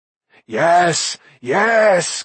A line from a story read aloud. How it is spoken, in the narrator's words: Gergi cried